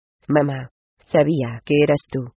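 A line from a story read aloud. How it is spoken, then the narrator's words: Oddly flat female voice. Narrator (Spanish): declaró ella con voz curiosamente monocorrillón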